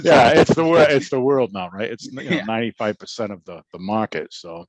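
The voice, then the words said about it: Boston accent. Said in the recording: “I love that Boston accent ... just sounds like kind of a tough guy”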